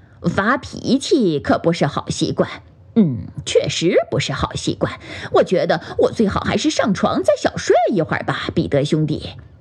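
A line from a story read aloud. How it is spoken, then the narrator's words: Soft laughing. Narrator (Chinese): 比利叔叔轻声地笑道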